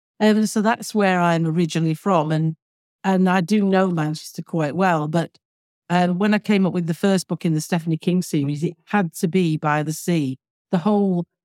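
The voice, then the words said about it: Manchester English accent. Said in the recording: “I was born and brought up, as you can probably tell from my accent”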